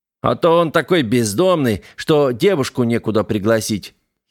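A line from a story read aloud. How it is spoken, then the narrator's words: Giggling report. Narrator (Russian): хихикнул Бандера и доложил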